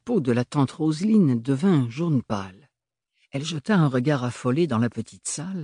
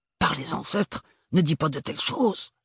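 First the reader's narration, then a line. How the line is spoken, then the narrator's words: Whispered. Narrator (French): chuchota-t-elle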